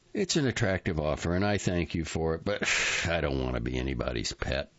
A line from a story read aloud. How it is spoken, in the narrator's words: he sighs and says